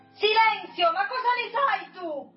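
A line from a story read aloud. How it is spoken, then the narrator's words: Yelled. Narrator (Italian): urla Felipe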